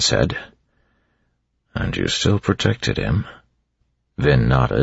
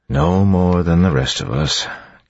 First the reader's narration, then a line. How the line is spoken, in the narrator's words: Kelsier said with a sigh